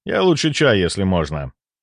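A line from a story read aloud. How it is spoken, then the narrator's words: Cold reply. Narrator (Russian): холодно ответил я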